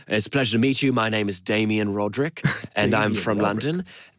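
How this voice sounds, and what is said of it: Put-on British accent. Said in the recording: “pretending to be British men ... accent ... we'd be talking like this”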